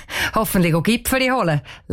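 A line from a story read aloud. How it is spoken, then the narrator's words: Laughing. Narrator (German): lacht der Vater von der Cheyenne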